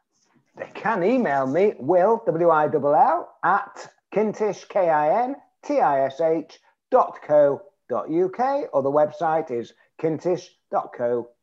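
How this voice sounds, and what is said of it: British English accent. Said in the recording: “I speak in english english whereas most of your listeners speak in American English”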